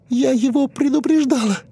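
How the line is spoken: Shaking sobs. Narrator (Russian): рыдала Джулия, и ее плечи тряслись

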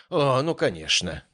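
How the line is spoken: Sighing. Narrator (Russian): вздохнул я

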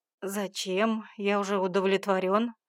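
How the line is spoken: Snorting. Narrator (Russian): хмыкнул он

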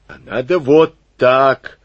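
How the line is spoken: Shout. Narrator (Russian): выкрикнул Штоквиц

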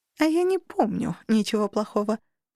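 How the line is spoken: Snide, emphasizing. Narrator (Russian): заметила ехидно, выделив

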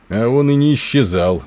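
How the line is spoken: Gloomy. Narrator (Russian): мрачно произнес Тернер

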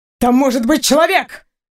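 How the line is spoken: Sharp bark. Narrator (Russian): рявкнул Максим

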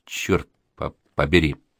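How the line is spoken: Quiet declaration. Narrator (Russian): Али ... негромко заявляет

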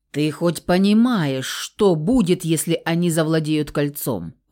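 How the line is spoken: Threatening hiss. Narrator (Russian): угрожающе прошипел Феникс

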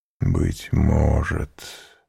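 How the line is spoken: Deeply sad whisper. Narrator (Russian): прошептал он с глубокой печалью

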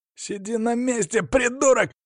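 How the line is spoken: Yelled. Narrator (Russian): заорал один мошенник

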